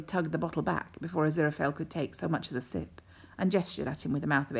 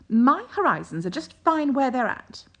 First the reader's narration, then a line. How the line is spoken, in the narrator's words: Aziraphale said haughtily